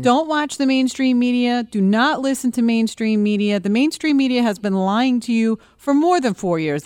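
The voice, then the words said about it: Philadelphia and New York accent. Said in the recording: “I'm from Philly. I lived in New York for 15 years. I'm back in Philly. My mouth is just a hot mess. But the accent”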